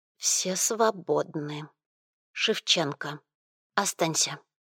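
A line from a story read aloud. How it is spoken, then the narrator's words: Quiet. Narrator (Russian): она сказала тихо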